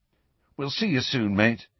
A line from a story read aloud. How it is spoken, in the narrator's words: said Ron anxiously